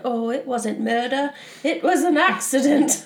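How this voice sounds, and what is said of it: Mock British accent. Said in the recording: “in a mock British accent”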